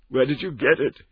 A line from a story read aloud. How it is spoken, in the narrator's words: he groaned